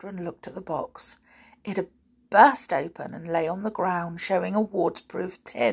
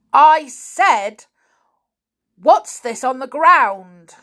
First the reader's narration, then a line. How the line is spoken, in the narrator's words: shouted his uncle